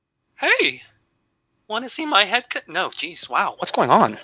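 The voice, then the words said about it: Mickey Mouse cartoon voice. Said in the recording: “a Mickey voice ... you can do a decent Mickey voice ... I have to hit a very certain like decibel level ... A distant Mickey”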